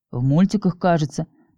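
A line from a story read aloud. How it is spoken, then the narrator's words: Mumbling. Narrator (Russian): пробормотал Кирилл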